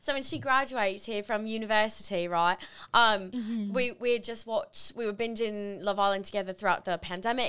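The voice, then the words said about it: Put-on British accent. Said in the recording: “I'm going to do this whole thing in a British accent.”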